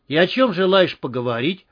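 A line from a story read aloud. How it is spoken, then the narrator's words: Smirking grunt. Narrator (Russian): хмыкнул Андрей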